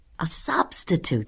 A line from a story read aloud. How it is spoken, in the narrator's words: somebody whispered to somebody else